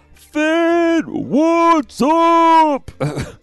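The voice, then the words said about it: Screamed greeting. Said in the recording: “I'm screaming this”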